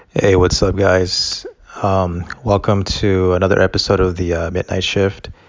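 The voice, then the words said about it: Mellow, calm voice. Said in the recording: “my voice sounds kind of like mellow”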